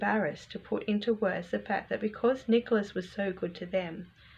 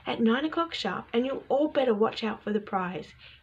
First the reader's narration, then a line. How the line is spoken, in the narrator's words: he shouted gleefully